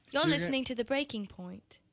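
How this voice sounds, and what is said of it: Put-on Australian accent. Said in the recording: “Australian ... is that a good one? ... That was good.”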